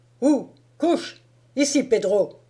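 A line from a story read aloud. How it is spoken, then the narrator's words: Shouting. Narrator (French): cria-t-il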